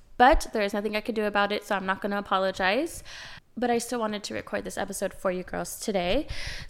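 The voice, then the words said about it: Slightly nasal, raspy voice. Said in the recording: “I am currently sick, I'm fighting a cold, so if I sound a little nasally or raspy,”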